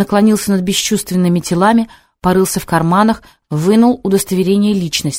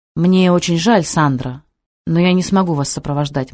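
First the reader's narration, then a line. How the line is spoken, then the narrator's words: Gloomy. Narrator (Russian): мрачно сказал Сабуров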